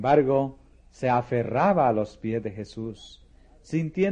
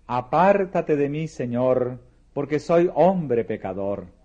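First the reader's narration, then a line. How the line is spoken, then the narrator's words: Exclaiming. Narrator (Spanish): Pedro exclamó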